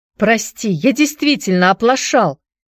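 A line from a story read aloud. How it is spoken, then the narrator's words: Shout. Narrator (Russian): закричал Энди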